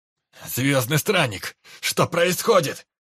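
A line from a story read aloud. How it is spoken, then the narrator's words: Yelling. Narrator (Russian): Заорал Дид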